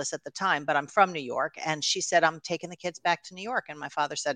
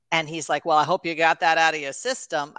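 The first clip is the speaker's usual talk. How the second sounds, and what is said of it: Weird put-on old-timey comic voice. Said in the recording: “I don't know why I'm talking like that. That's not how he sounds at all ... that's such a weird accent. I'm like, Groucho Marx is now my father.”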